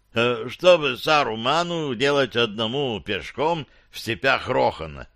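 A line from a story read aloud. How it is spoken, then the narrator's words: Plain. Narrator (Russian): спросил Гимли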